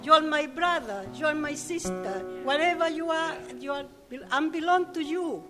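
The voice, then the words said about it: Yorkshire accent. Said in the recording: “picked up the Yorkshire accent”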